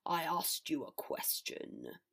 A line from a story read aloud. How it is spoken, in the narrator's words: Father snarled